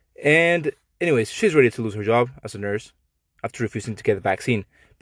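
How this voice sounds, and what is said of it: Mexican accent. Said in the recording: “I'm Mexican. I apologize for my accent.”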